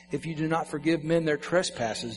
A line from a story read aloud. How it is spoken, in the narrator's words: Jesus says